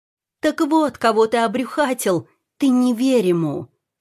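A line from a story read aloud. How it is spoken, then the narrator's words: Hysterical woman shouting. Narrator (Russian): кричала в выступлении эта истеричная особа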